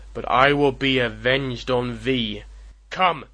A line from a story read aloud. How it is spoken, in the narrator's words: roared the digger of romance